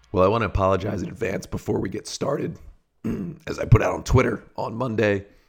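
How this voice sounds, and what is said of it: Raspy, slightly strained voice. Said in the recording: “this a bit raspy episode ... the voice not completely there, a little bit under the weather”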